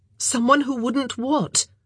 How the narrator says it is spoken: She asked urgently, sensing that this was important

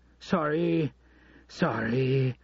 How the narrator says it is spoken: Dollar Bill said as he arrived, panting

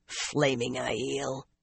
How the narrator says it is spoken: She could not help laughing again

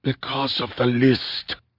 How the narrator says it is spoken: whispered

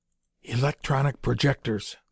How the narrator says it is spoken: the lieutenant whispered

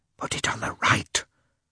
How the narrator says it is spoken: whispered Oblonsky to Lievin

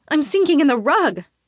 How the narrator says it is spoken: I shout in alarm

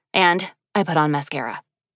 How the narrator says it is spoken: she added hastily under her breath

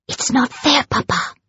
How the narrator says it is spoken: hissed

